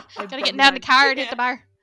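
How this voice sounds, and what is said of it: Put-on Newfoundland accent. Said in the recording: “it's that Newfie ... coming out ... I can't hold the Newfie accent for like 2 seconds. It is very hard for me to hold ... It's barely English, really.”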